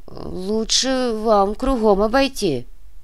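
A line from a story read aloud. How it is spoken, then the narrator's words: Uncertain woman. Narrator (Russian): неуверенно произнесла тетка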